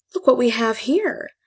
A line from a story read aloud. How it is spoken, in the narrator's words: she gasped